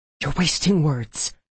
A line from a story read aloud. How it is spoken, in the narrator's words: I hissed